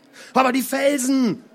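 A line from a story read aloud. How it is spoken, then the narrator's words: Man shouting. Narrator (German): schrie er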